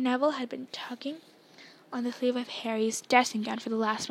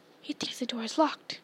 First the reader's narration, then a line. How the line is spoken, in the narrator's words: Harry whispered